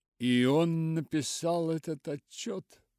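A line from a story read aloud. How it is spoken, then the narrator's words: Exclaimed. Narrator (Russian): воскликнул Мартин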